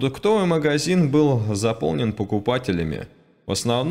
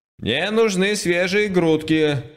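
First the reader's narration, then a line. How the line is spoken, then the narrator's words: Boy shouting. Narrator (Russian): закричал мальчик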